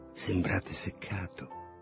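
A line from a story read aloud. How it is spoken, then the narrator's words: Whispered. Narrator (Italian): Lulu mi ha sussurrato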